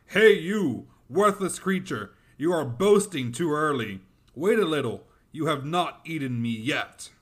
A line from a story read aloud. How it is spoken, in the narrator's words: Amiran shouted back